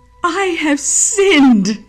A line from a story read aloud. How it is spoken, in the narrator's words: again cried Judas